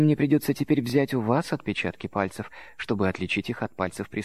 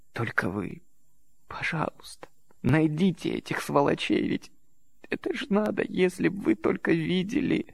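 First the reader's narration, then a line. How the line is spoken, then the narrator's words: Sobbing. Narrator (Russian): Она всхлипнула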